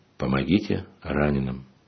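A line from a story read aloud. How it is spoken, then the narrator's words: Quiet. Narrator (Russian): тихо произнес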